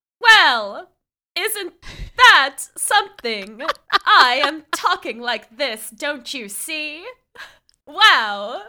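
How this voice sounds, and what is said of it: Good put-on transatlantic accent. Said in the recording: “I can't do a Judy Garland impression. I can't do a transatlantic accent. ... That was so good.”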